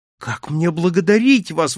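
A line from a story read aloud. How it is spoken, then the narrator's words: Exclaimed. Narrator (Russian): воскликнул я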